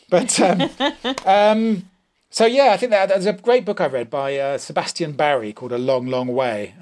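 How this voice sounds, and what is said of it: Posh English accent. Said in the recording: “why I have this posh accent. instead of sounding like Gay Byrne or something”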